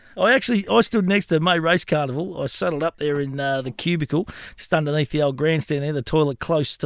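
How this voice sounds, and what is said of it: Imitates another person's voice. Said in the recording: “I used to be able to do Jim Owen back in the day. I could give him a crack.”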